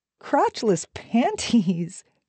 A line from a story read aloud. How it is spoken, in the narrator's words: she laughed